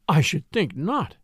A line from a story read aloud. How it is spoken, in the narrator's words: breathed Mrs